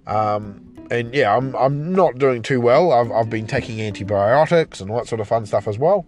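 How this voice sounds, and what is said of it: Sick, strained voice. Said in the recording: “as you can probably hear from my voice, I still sound quite sick.”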